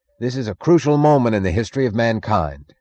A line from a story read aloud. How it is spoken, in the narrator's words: Gerald Starnes yelled through the noise